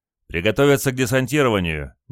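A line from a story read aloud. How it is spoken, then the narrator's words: Sudden shout. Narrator (Russian): неожиданно прокричал говорливый стрелок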